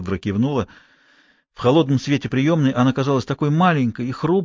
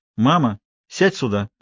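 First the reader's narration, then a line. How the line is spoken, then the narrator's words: Stern. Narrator (Russian): строго сказала Хелен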